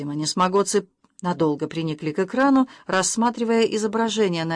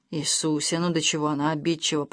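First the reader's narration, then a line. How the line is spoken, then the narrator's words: Grumbling. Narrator (Russian): проворчал Джина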